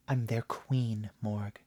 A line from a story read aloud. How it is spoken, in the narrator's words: she breathed